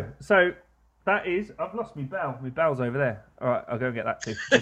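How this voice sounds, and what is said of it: Usual voice. Nothing is said of it.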